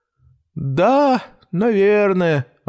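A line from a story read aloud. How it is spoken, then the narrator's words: Joyless. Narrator (Russian): ответил кот безрадостным голосом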